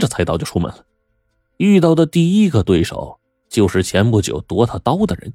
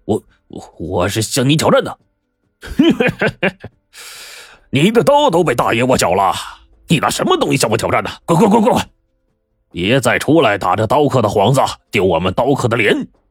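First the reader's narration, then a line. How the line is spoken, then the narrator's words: Laughing uncontrollably. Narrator (Chinese): 大胡子 笑得连腰都直不起来了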